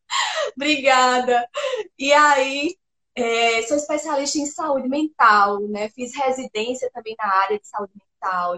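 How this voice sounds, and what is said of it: Pernambuco regional accent. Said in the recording (Portuguese): “sotaque lindo, maravilhoso ... esse sotaque”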